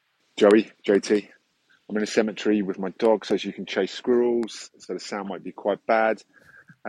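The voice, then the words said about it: British English accent. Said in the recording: “It sounds like a UK accent.”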